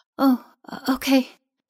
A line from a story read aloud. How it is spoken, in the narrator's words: she replied rather breathlessly